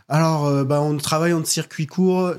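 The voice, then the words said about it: Put-on accent while mimicking. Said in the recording (French): “Je sais pas pourquoi je prends cet accent.”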